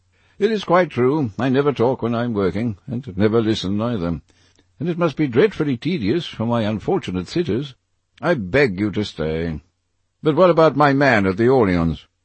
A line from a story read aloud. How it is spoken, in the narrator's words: The painter laughed